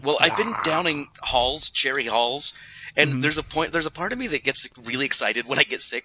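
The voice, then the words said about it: Husky, smoky voice from cold. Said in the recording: “I'm just getting over a cold, as you can tell by my smoky, husky, sexy voice.”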